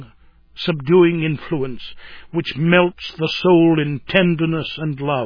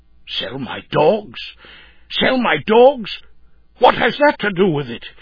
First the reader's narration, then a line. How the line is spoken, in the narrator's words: he exclaimed